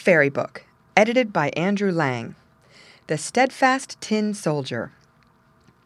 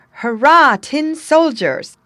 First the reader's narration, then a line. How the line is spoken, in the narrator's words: exclaimed by a little boy clapping his hands